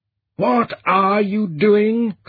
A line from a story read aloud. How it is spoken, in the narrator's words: Tranquility's outraged broadcast thundered into the Black Hawk's mind